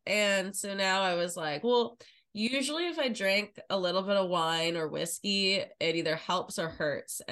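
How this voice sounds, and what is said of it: Sick, congested voice. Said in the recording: “You guys can probably hear it in my voice. I am sick right now. ... a little congestion, a little sore throat”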